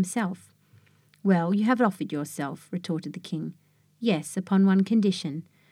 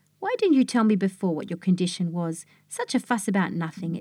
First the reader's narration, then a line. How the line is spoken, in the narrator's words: exclaimed the king